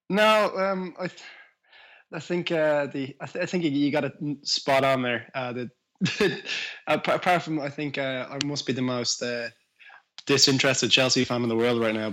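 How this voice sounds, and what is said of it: Irish accent. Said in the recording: “people can probably tell from your accent that you're from Ireland”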